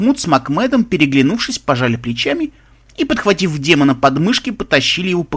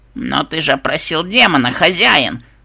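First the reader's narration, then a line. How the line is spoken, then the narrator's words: Terrified trembling squeak. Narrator (Russian): Дрожащим от ужаса голосом пропищал побледневший некромант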